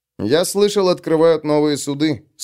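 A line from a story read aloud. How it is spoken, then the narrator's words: Plain. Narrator (Russian): сказал Агарок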